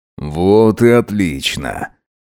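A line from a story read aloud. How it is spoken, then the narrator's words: Snorting grunt. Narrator (Russian): хмыкнул он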